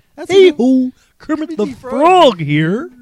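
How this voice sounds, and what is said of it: Kermit the Frog character voice. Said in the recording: “I didn't know he could do a Kermit impersonation.”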